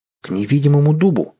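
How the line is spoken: Exclamation. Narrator (Russian): воскликнул Семен

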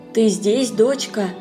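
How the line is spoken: Quiet familiar voice. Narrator (Russian): тихо спросил знакомый голос

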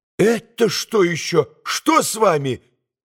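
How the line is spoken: Alarmed cry. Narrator (Russian): вскрикнула Лизе

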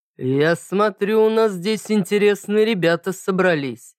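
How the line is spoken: Unusually deep female voice. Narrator (Russian): пробасила она неожиданно низким для женщины голосом

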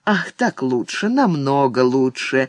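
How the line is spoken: Strained, suppressing pain. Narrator (Russian): Госпожа Эцу старалась не застонать от боли

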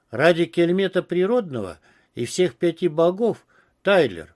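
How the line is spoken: Exasperated groan. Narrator (Russian): простонал Пец

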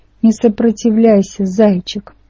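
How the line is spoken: Creaky old woman, in ear. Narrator (Russian): проскрипела мне в ухо моя старая математичка

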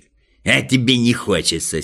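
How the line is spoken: Angry grumble. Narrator (Russian): сердито проворчал Торопышка

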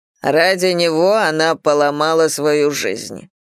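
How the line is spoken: Said with slight snort. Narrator (Russian): сказал полковник, слегка фыркнув

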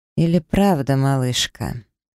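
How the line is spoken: Calm, not aggressive. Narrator (Russian): спокойно произнес Давид, вроде как без агрессии

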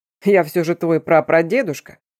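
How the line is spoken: Sudden chuckle. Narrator (Russian): неожиданно хохотнул Эрион

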